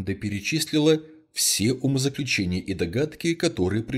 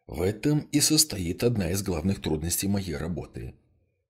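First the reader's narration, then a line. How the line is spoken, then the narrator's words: Soft, weary reply. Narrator (Russian): мягко и немного устало ответил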